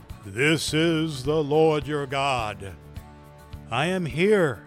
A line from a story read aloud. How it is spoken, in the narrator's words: this big booming voice came out